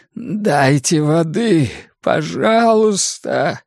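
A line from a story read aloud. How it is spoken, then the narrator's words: Moaning plea. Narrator (Russian): простонал он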